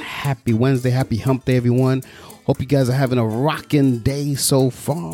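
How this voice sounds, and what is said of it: Peppy, upbeat energetic voice. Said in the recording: “hear the pep in my voice”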